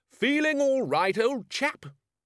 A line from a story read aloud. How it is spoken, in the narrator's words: shouted